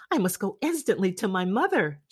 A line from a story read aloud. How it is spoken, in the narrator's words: she cried